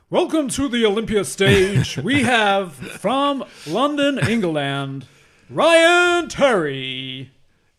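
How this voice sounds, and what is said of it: Bob Chick-style stage announcer voice. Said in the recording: “You should have done your Bob Chick kind of voice. ... that's a proper announcer voice.”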